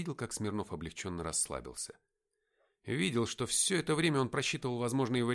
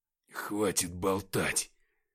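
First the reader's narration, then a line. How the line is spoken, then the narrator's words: Weak strained voice. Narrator (Russian): через силу выдавил бледный от потери крови Игнат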